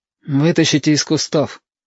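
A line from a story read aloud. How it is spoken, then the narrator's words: Quiet command. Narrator (Russian): тихо приказал Юртанка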